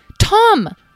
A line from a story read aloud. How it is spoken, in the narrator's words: Talora exclaimed